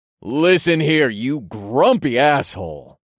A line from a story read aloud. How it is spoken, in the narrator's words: I growled in my most powerful tone